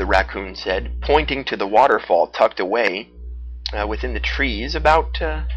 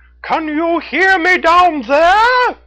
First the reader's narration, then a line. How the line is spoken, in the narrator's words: Red the Raccoon shouted down to her